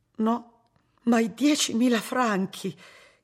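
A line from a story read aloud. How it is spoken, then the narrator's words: Breathless horrified sisters asking. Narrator (Italian): chiesero le sorelle ansimando inorridite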